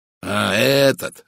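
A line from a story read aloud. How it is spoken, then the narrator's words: Exclaimed. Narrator (Russian): воскликнул майор Барри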